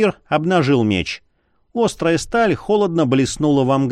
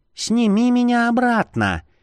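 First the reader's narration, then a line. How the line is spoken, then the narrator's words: Girl squeaking. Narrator (Russian): пискнула девчонка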